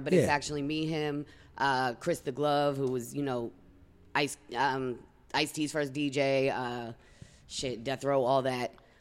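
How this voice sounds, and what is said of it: Boston East Coast accent. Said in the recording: “if y'all couldn't fucking tell from her accent, ... is from the East Coast, specifically she's from Boston”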